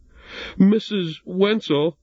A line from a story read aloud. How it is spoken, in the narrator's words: stammered Jesse